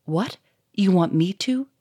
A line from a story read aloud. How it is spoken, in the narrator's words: said Victor in a shaky voice